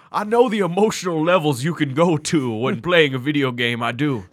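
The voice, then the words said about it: Put-on Foghorn Leghorn-style accent. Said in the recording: “the Knives Out accent... It was more of a Foghorn Leghorn.”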